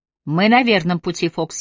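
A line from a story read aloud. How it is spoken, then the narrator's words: Plain. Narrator (Russian): сказал он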